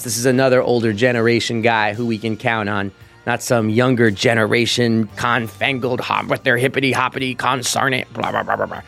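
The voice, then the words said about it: Impression of Roger Goodell. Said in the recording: “my impression of Roger Goodell”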